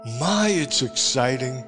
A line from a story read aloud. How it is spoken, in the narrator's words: she cried, pausing from sheer weakness